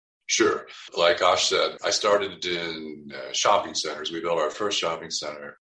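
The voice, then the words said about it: Froggy, hoarse, deeper voice. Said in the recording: “my voice is a little froggy from, let's say, too much Christmas party last night ... makes my voice sound deeper than it normally is”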